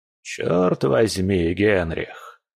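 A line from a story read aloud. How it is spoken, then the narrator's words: Grumbling in the wind. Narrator (Russian): проворчал Густав, пытаясь зажечь сигару под порывами ветра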